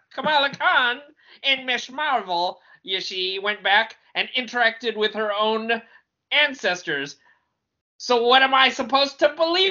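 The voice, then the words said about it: 1920s Chicago gangster-Irish accent mix. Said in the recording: “I'm hearing like a cross between your 1920s Chicago gangster and an Irish accent.”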